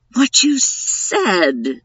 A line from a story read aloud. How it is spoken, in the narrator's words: Vicky said in a shocked voice